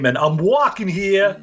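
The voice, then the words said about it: Attempted New York accent. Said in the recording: “the only thing I can say in a remotely New York accent”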